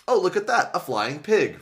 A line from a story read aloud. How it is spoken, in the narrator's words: Rachel exclaimed